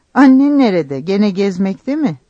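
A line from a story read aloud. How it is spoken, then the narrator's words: Laughing. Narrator (Turkish): Yusuf tekrar güldü, lafı değiştirerek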